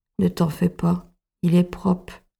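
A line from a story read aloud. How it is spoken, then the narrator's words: Plain. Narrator (French): dit sa grand-mère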